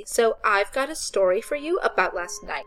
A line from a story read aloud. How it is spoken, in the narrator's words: said Becca loudly